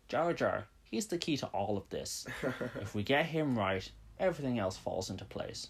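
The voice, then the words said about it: Imitates another person's voice. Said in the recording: “That's my George Lucas impression, folks. Turns out it's better than my Macho Man impression. ... Marginally.”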